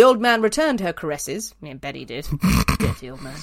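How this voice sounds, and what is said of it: Usual voice. Nothing is said of it.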